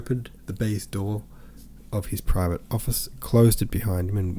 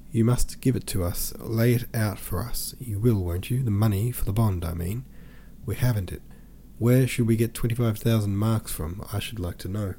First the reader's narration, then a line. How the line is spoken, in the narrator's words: said, her voice quavering